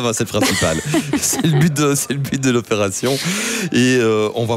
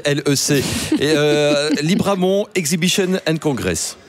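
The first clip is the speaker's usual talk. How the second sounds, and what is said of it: Exaggerated English accent. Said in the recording (French): “J'ai un accent anglais incroyable.”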